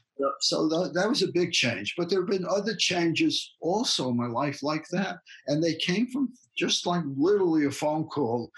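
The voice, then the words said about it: Bronx New York accent. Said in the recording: “my Bronx accent”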